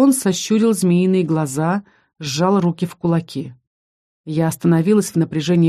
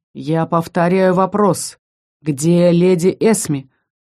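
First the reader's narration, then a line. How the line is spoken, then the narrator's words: Menacing. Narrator (Russian): грозно произнес дракон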